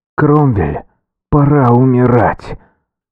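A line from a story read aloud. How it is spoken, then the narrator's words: Muffled growl from helmet. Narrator (Russian): прорычал глухой голос из-под шлема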